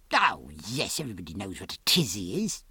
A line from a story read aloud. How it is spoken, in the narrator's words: said Margaret rather scornfully